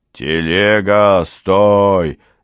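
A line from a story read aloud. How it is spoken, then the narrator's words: Loud shout. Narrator (Russian): закричал он громко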